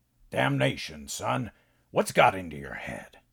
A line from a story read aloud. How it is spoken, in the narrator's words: Pa growled